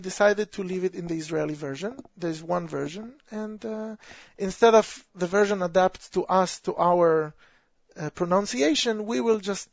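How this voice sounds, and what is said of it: Israeli accent. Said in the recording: “my Israeli accent is pretty apparent”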